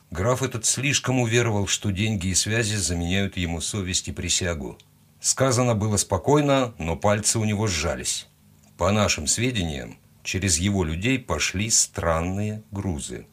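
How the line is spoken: Quiet. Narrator (Russian): тихо добавил он

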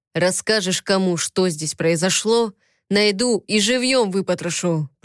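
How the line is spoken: Growl. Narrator (Russian): прорычал

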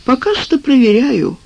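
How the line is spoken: Gloomy. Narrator (Russian): мрачно сказал Вячеслав Иванович

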